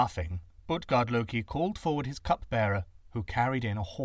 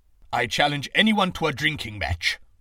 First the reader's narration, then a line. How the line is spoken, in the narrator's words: roared Thor